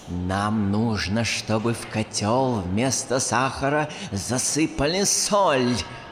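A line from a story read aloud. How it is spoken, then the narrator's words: Angry hiss. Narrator (Russian): прошипела злая Манефа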